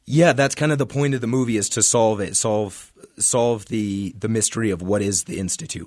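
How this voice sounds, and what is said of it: Rough voice, sounds like a cold. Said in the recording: “excuse my voice, sorry. ... It's going around. ... Cold around here.”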